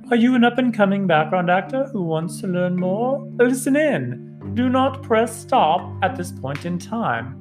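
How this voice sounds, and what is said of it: Put-on fake accent. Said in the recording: “that was my fake accent ... It was fake and not real”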